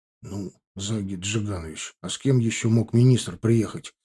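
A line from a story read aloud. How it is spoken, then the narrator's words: Quiet reply. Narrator (Russian): Так же тихо ответил я ему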